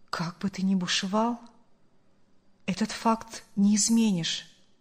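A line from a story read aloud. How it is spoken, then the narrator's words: Calm, mournful man. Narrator (Russian): спокойно и скорбно произнес мужчина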